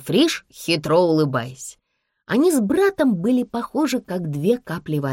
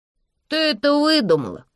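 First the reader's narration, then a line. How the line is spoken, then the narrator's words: Incredulous drawl. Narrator (Russian): недоверчиво протянул Никель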